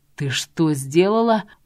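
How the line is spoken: Growl. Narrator (Russian): прорычал Федор

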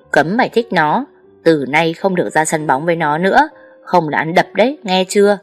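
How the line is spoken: Furious, gritted voice. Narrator (Vietnamese): Đột nhiên anh tí phừng phừng, gằn giọng

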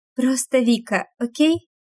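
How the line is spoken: Suddenly nervous voice. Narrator (Russian): внезапно ставший нервным голос

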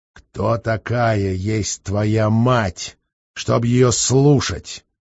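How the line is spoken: Menacing male question. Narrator (Russian): грозно вопросил он

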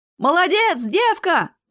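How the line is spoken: Shouted out. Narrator (Russian): выкрикнул кто-то

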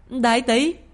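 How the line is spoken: Astonished cry. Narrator (Vietnamese): nàng ngạc nhiên đến mức há hốc miệng thật lớn rồi kêu lên

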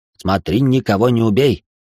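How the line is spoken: Dragon's snort. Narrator (Russian): фыркнул дракон

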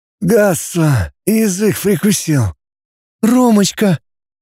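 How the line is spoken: Crying girl, smiling through tears. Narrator (Russian): Девушка плакала, улыбалась сквозь слезы

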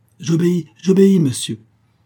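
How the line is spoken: Exclaimed. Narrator (French): s'écria Bruxelles

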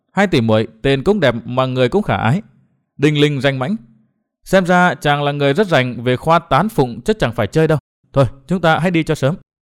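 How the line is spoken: Warm, smiling. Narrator (Vietnamese): Nguyên Bình mỉm cười thân mật

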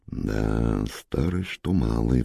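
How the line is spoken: Sighing. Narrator (Russian): вздохнула Валентина Сергеевна

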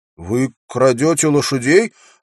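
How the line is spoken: Accusing question. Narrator (Russian): обвиняющим тоном спросил Уилл

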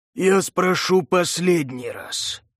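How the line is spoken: Hissing, adrenaline-charged. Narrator (Russian): прошипел Маджура, едва справляясь с бурлящим в крови адреналином

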